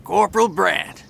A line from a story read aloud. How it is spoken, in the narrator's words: called a booming southern voice